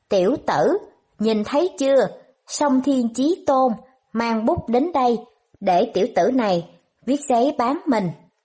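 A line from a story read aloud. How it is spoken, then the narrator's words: Loud triumphant laughter. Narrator (Vietnamese): ngửa mặt lên trời cười to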